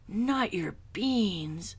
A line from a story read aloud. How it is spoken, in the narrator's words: cried Skipito, outraged